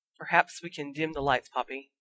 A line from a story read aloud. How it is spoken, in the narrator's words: Professor Dumbledore said softly